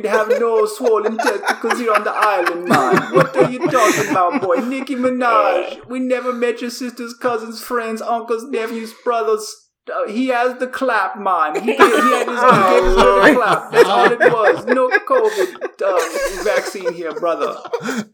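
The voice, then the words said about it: Imitated Trinidadian accent of health minister. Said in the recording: “the health minister from Trinidad Tobago ... Do the accent ... He did kind of sound like that.”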